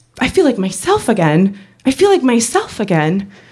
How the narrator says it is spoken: I started exclaiming to near strangers

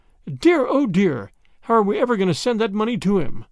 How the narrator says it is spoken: she exclaimed

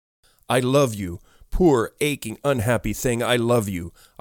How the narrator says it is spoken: I cried through hot tears

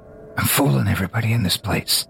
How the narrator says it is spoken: Drunkish whispers

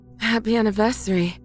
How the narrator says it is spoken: my wife says between pants

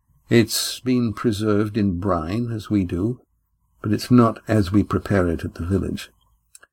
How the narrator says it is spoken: Astraea answered evenly

